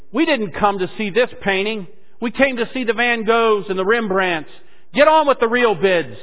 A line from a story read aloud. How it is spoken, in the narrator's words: Another voice came from the back shouting angrily